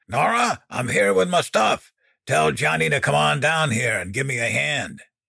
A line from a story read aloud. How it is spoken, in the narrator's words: Dan bellowed